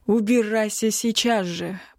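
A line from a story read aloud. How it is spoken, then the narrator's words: Growled. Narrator (Russian): прорычал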